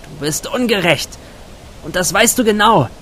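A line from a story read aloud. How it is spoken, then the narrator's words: Calling out. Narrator (German): rief in den Nachthimmel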